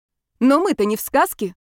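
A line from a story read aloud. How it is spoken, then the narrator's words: Indignant. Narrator (Russian): возмущенно всплеснула руками Ева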